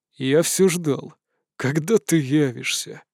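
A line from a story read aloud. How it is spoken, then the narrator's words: Tired voice. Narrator (Russian): уставшим голосом произнес император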